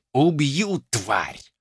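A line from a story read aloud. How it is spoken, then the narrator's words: Hissed. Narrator (Russian): прошипел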